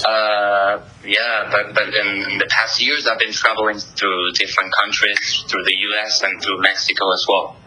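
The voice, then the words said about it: Slight foreign accent. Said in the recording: “I'm picking up a little bit of an accent there.”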